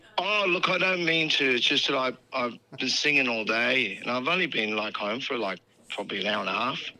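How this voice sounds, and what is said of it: Tired, husky voice. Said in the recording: “You sound very sexual tonight... That husky voice is pretty sexy... My voice is kind of tired and husky”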